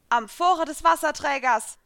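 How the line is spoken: Loud call. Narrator (German): rief ich laut

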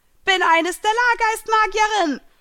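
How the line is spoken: Shouted out. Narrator (German): schrie sie hinaus

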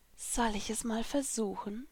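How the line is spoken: Whispered. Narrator (German): flüsterte ich

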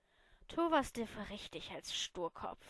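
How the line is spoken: Sighing woman. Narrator (German): seufzte sie

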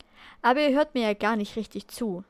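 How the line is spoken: Sighing. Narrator (German): seufzte er

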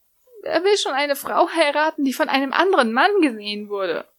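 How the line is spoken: Whining. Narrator (German): jammerte Lucy

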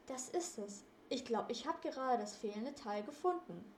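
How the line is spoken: Calling out. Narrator (German): rief er

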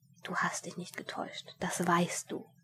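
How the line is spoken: Whispering inner voice. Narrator (German): eine Stimme in ihm flüsterte zu ihm

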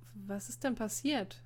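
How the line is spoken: Hesitant question. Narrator (German): fragte Emil zögernd

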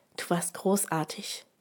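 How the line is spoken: Gentle. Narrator (German): sagte ich sanft

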